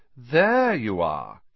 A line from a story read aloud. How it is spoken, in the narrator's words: he drawled